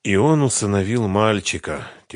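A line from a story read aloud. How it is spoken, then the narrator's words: Heavy sigh. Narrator (Russian): тяжело вздохнул Ренат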